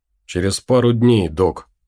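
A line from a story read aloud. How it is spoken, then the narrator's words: Plain. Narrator (Russian): ответил ему Том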